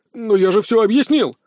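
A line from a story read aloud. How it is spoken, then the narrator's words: Exclamation. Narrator (Russian): воскликнул наследник Чеболя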